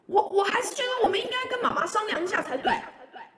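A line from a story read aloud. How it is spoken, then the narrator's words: Shouting on motorbike. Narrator (Chinese): Y 边在机车后座对 Y 爸爸大喊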